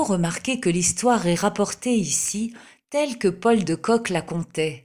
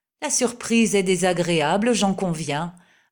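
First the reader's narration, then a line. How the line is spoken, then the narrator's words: Pedantic mockery. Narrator (French): ajouta Fouquier d'un ton de moquerie pédante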